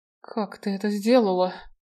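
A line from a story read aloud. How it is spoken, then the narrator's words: Astonished whisper. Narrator (Russian): изумленно прошептала Рене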